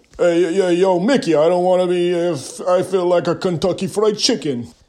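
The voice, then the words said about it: Slow, drowsy imitation, slightly Russian-sounding. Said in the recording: “a good impression of Sylvester Stallone is like Yogi Bear on too many sleeping pills... slow it down... that sounded a little Russian”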